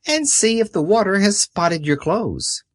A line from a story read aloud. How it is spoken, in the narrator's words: cried my grandfather